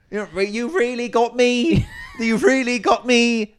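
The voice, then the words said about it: Bristol accent. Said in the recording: “Saying it in a Bristol accent.”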